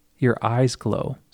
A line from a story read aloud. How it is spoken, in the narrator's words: Sarai said